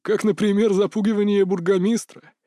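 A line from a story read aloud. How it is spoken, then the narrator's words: Laughing prince. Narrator (Russian): засмеялся принц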